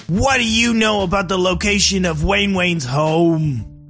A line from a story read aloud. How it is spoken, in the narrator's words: John yelled back